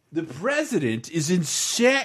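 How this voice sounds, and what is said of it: Imitates another person's voice. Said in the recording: “all I can do is Joe Scarborough”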